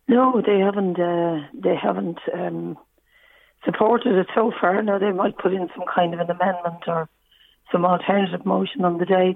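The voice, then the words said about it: Rough, sore-sounding voice. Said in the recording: “pardon my voice. I had a bit of a virus in my throat. ... I can hear that, yes.”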